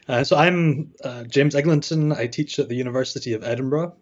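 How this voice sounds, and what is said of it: Scottish accent. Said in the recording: “I'm from Scotland, as you can probably tell by my accent.”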